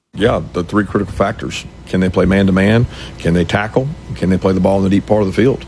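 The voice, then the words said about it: Southern Georgia accent. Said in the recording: “the Bainbridge, Georgia come back into Kirby Smart's vernacular ... brought the Southern accent back ... We got a little Bainbridge from Kirby”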